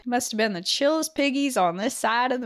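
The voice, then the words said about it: Poor put-on southern accent. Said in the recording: “my southern accent's awful”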